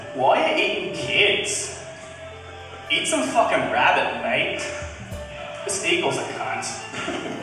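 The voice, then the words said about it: Impression of an Australian parent. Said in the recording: “My Impression of an Australian Parent Addressing Her Child's Attacker”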